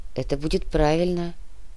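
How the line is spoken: Quiet young man. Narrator (Russian): тихо произнес молодой человек

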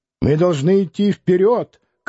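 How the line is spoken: Shouting, oddly accented. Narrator (Russian): кричал он, странно акцентируя

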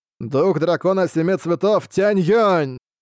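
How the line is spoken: Shouted again. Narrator (Russian): Вновь закричал Тянь Юэнцзы

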